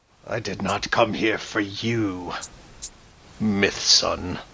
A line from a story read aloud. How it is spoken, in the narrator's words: speaks in a low voice and he says